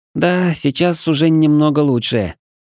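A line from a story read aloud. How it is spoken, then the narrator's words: Slightly uncertain, smiling. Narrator (Russian): немного неуверенно улыбнулась чешуйка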